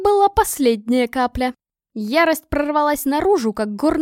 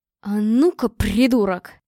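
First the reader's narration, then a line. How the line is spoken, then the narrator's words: Growled. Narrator (Russian): прорычала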